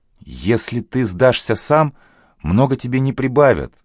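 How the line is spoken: Pleading. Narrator (Russian): взмолилась Василина

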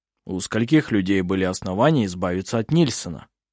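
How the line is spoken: Plain. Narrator (Russian): спросил Хейке

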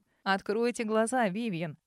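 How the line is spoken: Cheerful. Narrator (Russian): весело сказал Арман

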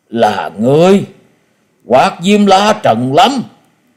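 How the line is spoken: Astonished, in unison. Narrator (Vietnamese): Tứ độc thư sinh đồng loạt kêu lên mấy tiếng kinh ngạc, đồng thanh nói

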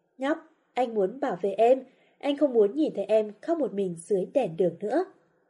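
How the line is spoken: Gentle soothing. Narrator (Vietnamese): Hà Tịch nhẹ nhàng dỗ như một đứa trẻ

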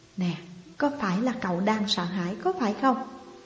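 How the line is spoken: Soft question. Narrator (Vietnamese): cô khẽ hỏi

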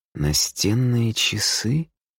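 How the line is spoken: Hoarse, strange voice. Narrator (Russian): Голос ее хрипит и звучит как-то странно

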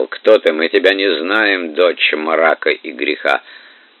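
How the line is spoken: Grumbling. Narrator (Russian): Матрос проворчал

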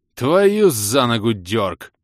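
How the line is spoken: Groan. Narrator (Russian): простонал я

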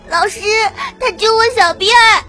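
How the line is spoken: Crying child complaining. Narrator (Chinese): 羊角辫哭着

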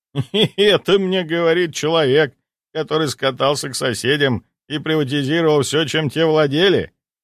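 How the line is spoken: After laughing. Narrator (Russian): отсмеявшись, произнес Жилин

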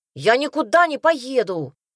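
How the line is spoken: Yelled outdoors. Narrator (Russian): заорал на улице Ильян

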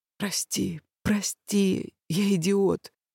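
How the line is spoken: Whispering between kisses. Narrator (Russian): шептала, целуя мои соленые губы

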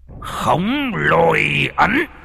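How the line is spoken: Shouting forcefully. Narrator (Vietnamese): Thầy quát lên

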